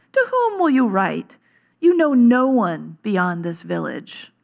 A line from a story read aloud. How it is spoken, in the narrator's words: scoffed the scribe